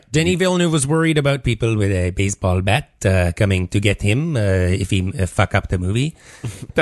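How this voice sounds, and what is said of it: Bad put-on accent. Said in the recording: “That's horribly offensive accent. ... I mean your accent. ... just bad.”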